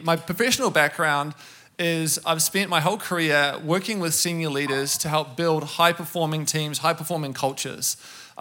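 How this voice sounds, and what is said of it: New Zealand accent, words run together. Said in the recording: “I'm from New Zealand, so you hear the funny accent. ... I can slur my words together ... we don't pronounce our vowels. We just sort of run from one word into the next.”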